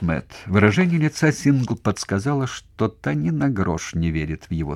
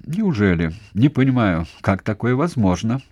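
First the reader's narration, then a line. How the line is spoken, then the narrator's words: Angry bark. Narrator (Russian): сердито рявкнул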